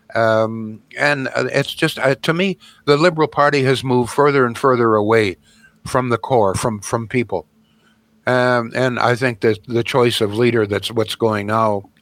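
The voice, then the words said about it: Hoarse, fading voice. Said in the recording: “my voice is really going here”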